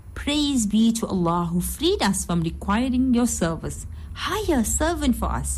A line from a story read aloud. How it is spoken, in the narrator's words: she exclaimed